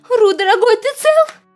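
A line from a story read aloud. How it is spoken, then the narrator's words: Shouting. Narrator (Russian): кричала Кенга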